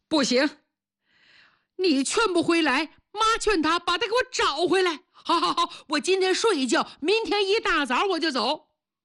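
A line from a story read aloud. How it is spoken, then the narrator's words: Old person sobbing. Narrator (Chinese): 老人家痛哭流涕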